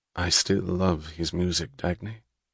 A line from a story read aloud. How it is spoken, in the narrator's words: He added softly